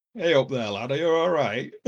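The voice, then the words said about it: Put-on Yorkshire accent. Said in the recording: “everybody speaks with a Yorkshire accent”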